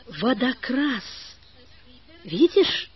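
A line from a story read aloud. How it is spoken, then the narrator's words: Trembling male voice. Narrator (Russian): сказал он дрожащим голосом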